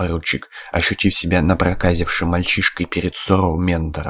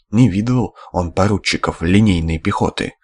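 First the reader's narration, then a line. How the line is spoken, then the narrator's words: Sighing. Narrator (Russian): комендант вздохнул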